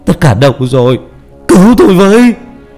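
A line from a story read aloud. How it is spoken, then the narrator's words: Shouting. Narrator (Vietnamese): Vũ hét lên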